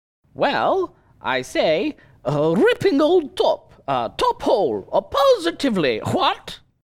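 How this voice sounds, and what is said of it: Put-on English accent. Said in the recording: “that English accent ... That's better that time.”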